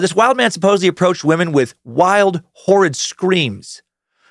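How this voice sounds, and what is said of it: Usual voice. Nothing is said of it.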